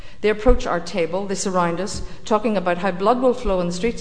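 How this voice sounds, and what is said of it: Northern Irish accent. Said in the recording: “My accent identifies me as from Northern Ireland”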